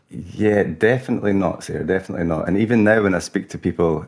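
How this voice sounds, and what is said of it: Scottish accent. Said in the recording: “your accent gives you away. When you were growing up in Scotland”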